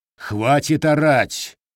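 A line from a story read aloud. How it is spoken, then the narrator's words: Giant's thunderous bark. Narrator (Russian): рявкнул гигант так, что лабораторная посуда задребезжала, а монитор на столе профессора закачался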